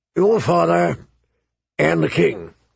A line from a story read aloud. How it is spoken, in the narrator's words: he rumbled